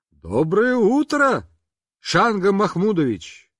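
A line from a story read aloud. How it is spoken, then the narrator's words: Shout. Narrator (Russian): Папа крикнул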